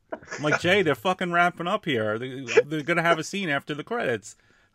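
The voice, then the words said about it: Imitates another person's voice. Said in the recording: “That was a good impression. ... You sounded like Hogan when he was like, got somebody in the corner beating their stomach.”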